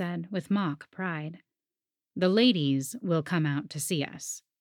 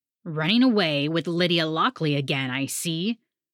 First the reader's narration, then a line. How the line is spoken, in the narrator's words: the man growled